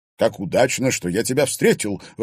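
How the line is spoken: Exclaiming. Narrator (Russian): воскликнул он

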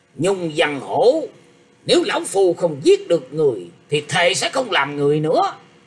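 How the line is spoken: Angry old man. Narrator (Vietnamese): lão ta giận dữ nói

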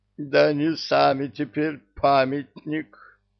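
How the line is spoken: Groaning. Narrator (Russian): простонал предводитель

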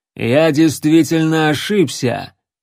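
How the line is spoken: Loud. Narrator (Russian): громко сказал

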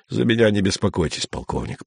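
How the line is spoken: Grumbling. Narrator (Russian): проворчал он

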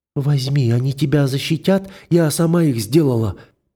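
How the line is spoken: Child's timid babble. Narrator (Russian): пролепетала девочка

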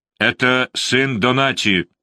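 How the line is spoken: Shout. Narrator (Russian): закричал он

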